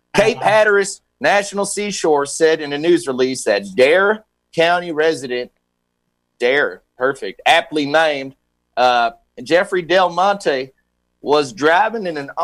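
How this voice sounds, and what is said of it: Put-on regional accent. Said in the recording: “I'm just going to go regional with the accent here.”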